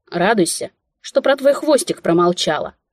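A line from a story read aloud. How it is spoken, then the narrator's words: Snapped back. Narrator (Russian): огрызнулась я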